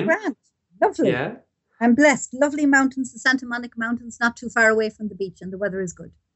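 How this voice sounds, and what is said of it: Irish accent. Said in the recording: “I can tell that you're an Irish person, that you grew up in Ireland ... The accent kind of gives it away”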